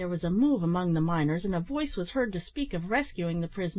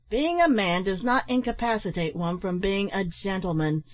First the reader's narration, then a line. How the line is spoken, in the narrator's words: said Ned sharply, with a look of scorn